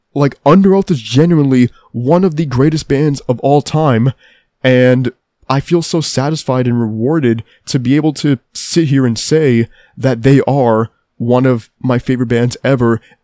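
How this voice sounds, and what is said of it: Tired, worn-out voice. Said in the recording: “I'm really, really fucking tired. My voice is gone by this point. I'm spent.”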